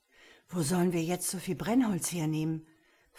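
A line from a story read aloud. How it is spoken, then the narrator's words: Hoarse, panting question. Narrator (German): fragte Jakob mit heiserer, keuchender Stimme den alten Nikodemus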